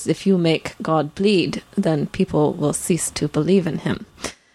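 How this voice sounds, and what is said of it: Put-on Russian accent. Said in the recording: “I don't know how good my Russian accent was there ... it was a good attempt”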